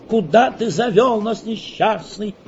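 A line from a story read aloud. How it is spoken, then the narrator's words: Loud exclamation. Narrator (Russian): громко воскликнула Элиза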